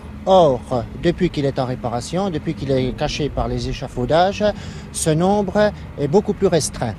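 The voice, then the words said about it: Belfort regional French accent. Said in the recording (French): “J'adore cet accent. ... c'est l'accent dans lequel vous avez grandi ? ... Belfort ... cette espèce de manière de faire les R”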